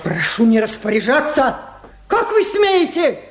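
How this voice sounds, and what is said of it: Shouting angrily. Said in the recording (Russian): “не ори”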